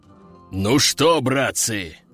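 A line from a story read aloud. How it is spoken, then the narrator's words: Deep bass voice. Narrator (Russian): пробасил боевой демон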